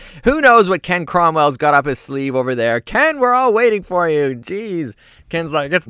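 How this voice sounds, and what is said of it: Usual voice. Nothing is said of it.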